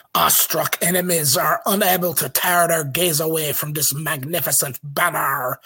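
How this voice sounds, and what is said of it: French-Scottish mongrel accent. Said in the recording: “This is a French-Scottish mongrel accent you had just then... that's how all the French people here talk... Acadian”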